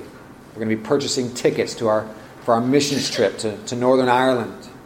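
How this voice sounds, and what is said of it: Put-on Irish accent. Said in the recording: “I kind of said that with an Irish accent, didn't I?”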